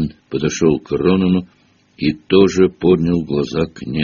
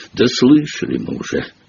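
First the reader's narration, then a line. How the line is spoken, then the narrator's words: Angry grumbling. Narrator (Russian): сердито проворчал Хагрид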